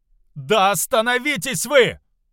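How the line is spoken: Servant shouting. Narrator (Russian): прокричал слуга

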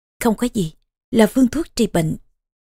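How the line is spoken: Calm, smiling. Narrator (Vietnamese): Vương hậu điềm tĩnh mỉm cười

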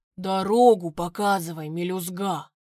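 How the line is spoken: Grumbled. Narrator (Russian): буркнул

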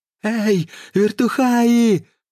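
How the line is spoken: Strained shout. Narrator (Russian): надсадно выкрикнул Слонимский

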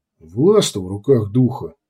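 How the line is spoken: Mutter. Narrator (Russian): пробормотал Ундор

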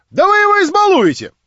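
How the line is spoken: Shout. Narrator (Russian): прокричал Петр Степанович, быстро вбегая в комнату

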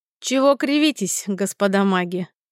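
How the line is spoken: Mocking question. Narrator (Russian): насмешливо поинтересовался Дагберн

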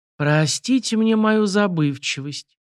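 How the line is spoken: Almost tender. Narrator (Russian): почти ласково произнес Александр Васильевич

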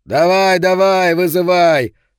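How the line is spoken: Shouted. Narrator (Russian): прокричал Соломон

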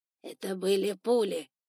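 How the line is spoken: Grumble. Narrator (Russian): пробурчал тот

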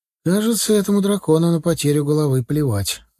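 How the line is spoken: Sigh. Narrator (Russian): вздохнул Стас

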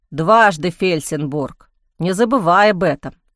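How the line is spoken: Grumbling policeman. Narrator (Russian): проворчал полицейский

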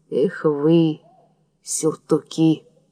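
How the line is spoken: Through gritted teeth. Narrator (Russian): Родион выговорил сквозь зубы

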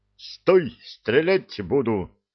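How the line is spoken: Stern formal call. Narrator (Russian): строго по уставу откликнулся Заботин

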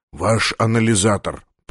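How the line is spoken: Whisper. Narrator (Russian): прошептал он

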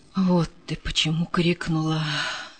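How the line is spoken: Sighing sergeant. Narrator (Russian): вздохнул старшина

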